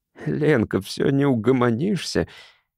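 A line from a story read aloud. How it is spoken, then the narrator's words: Hysterical giggle, hiding fear. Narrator (Russian): истерично хихикнул он, старательно пряча страх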